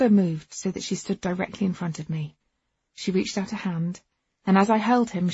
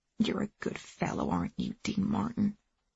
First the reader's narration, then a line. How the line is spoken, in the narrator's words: she said softly